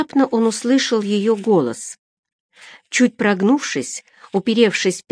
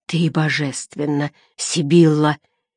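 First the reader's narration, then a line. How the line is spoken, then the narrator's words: Hoarse, frenzied teenager. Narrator (Russian): хрипел подросток, входя в раж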